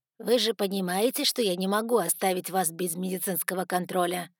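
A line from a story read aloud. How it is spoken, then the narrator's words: Stern question. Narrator (Russian): строго спросил мистер Эшли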